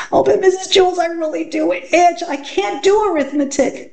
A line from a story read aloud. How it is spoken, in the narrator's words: Dana whined